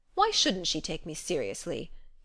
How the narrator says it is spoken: he demanded sharply

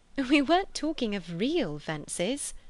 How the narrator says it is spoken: said Lucy, laughing

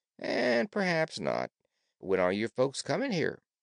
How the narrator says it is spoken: remarked Cap'n Bill coolly

